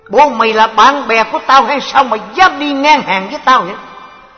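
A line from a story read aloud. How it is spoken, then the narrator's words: Glaring angry shout. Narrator (Vietnamese): ông liền trợn mắt quát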